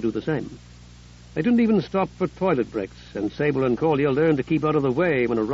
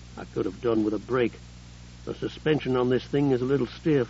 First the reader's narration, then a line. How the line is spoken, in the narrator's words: Sable grumbled